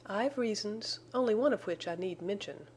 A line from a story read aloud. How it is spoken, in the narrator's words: she answered